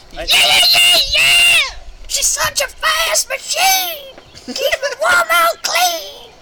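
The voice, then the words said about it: Sung impression of a rock singer. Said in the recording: “Brian Johnson. ... Impersonations, that is mine.”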